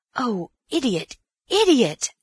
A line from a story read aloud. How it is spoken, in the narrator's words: Antony cried